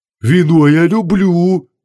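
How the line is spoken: Deep bass voice. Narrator (Russian): пробасил Хубаксис

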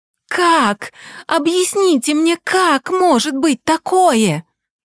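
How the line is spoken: Yelling. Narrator (Russian): орала я на доктора Снегирь

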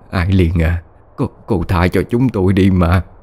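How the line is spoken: Trembling voice. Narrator (Vietnamese): Cô Bạch run run nói

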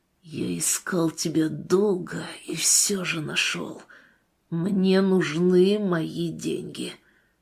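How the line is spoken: Menacing hiss. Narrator (Russian): зашипел

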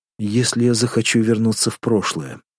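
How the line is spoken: Quiet question. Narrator (Russian): тихо спросил Крайнев

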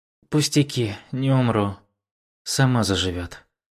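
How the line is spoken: Heavy sigh, then reply. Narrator (Russian): Лансюэ тяжело выдохнула и ответила

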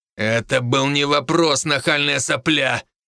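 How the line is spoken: Through gritted teeth. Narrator (Russian): процедил Фердинанд

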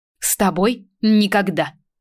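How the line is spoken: Angry. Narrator (Russian): Зло сказала

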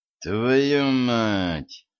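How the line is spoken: Through gritted teeth. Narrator (Russian): процедил сквозь зубы Денис

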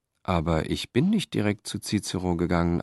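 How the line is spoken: Plain answer. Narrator (German): antwortete Stenius

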